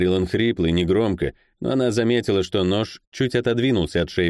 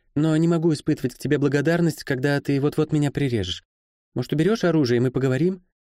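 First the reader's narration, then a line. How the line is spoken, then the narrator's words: Soft, soothing. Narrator (Russian): сказала мягко, словно говорила с перепуганным, а потому готовым напасть из страха, псом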